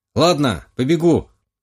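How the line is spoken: Loud announcement. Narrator (Russian): громко объявил младший Романов

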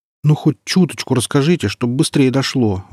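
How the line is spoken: Pleading. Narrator (Russian): взмолился младший лейтенант

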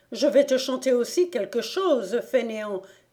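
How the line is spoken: Mother crying out angrily. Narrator (French): s'écriait avec colère la mère

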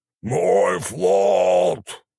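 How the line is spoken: Roaring boar. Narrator (Russian): взревел кабан

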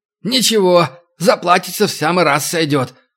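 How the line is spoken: Snorting grunt. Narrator (Russian): хмыкнул Рыжий

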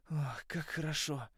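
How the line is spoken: Relieved exhale. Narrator (Russian): выдохнул я

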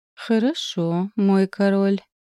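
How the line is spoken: Slow speech. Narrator (Russian): медленно произнесла я

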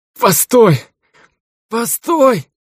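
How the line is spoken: Moaned. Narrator (Russian): простонал Ржавый

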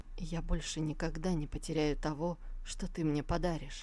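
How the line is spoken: Whisper. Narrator (Russian): прошептал

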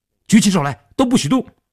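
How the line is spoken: Shouting. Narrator (Chinese): 大喊道

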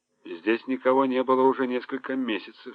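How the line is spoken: Plain. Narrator (Russian): сказал он

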